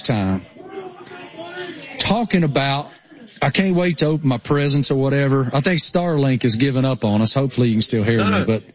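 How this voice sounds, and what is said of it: Thick rural Appalachian accent. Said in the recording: “I am such a hillbilly redneck that it's unbelievable how thick my, you know, rural Appalachian accent is.”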